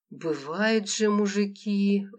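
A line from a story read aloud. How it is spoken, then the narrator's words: Sighing aunt. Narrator (Russian): вздохнула тетя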